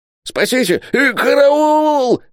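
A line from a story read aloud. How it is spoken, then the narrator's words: Yelling. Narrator (Russian): вопил Исаак Хакабут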